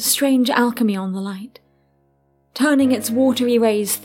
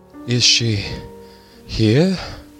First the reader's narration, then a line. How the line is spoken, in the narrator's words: He asks, breathlessly wanton